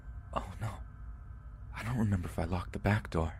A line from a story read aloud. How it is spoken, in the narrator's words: her voice lowered to almost a whisper as she exclaimed